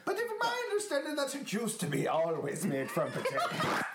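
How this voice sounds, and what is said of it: Put-on foreign accent. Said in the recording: “I'm enjoying how much you're really committing to this accent.”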